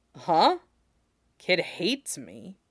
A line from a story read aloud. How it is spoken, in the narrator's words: Jason says